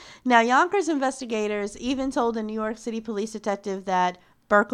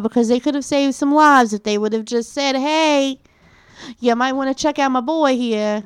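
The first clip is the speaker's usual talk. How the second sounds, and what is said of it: New York accent. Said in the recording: “I love how you pick up a New York accent.”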